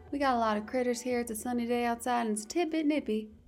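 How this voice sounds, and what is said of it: Attempted cowgirl accent. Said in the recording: “my attempt at a cowgirl accent”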